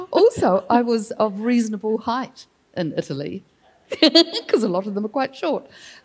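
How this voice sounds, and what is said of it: Beautiful New Zealand accent. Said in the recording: “for a Kiwi ... Oh, it's a beautiful accent.”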